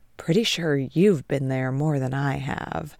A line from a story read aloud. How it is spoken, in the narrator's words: Ted whispers to Trent